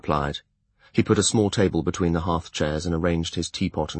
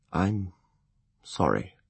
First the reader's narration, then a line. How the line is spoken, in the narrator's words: he said quietly